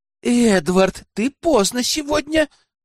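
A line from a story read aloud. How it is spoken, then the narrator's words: Caring murmur. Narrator (Russian): заботливо пролепетала Айлин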